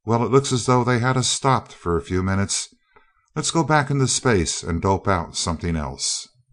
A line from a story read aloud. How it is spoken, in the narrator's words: Duquesne, with no thought of quitting apparent in his voice or manner, said calmly